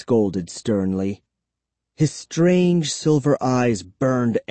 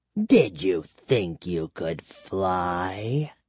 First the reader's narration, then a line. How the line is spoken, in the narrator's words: he demanded with a sneer